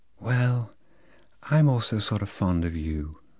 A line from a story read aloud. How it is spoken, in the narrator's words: said Lolita in a delayed, soft voice, with a sort of sigh